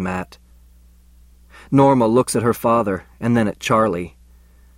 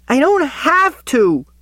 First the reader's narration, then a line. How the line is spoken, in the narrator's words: she screeches